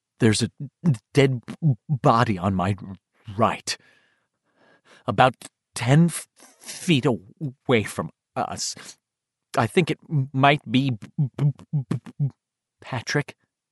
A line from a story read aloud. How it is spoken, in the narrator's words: Beverly asked, her voice trembling on the edge of hysteria